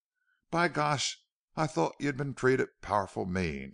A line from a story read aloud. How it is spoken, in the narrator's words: exclaimed Bate Wood, and he was full of wrath